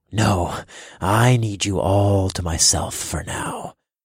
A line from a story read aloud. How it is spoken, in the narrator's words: growled